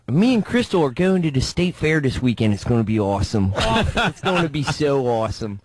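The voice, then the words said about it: Put-on Baltimore accent. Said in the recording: “You know that Baltimore accent, which is the same as like the Philly one. ... does a great Baltimore accent. ... Yeah, that's pretty good. ... I did the Ziggy accent”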